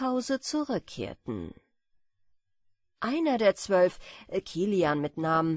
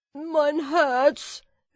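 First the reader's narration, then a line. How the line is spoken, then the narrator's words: Calling out. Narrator (German): rief er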